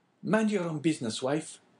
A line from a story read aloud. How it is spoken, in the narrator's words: replied Caderousse sharply